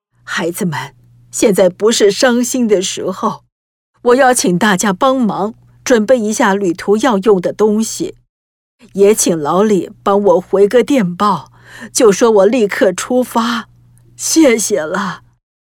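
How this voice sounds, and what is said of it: Calm, steady voice. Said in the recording (Chinese): “坚强的妈妈马上用沉稳的声音说”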